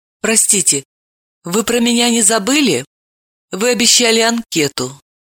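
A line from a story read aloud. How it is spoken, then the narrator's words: Timid question. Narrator (Russian): Левицкая робко спросила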